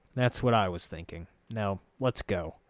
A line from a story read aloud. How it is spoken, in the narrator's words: said with a grumble